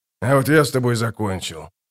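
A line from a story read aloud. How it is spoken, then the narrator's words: Calm. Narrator (Russian): спокойно ответил малозанец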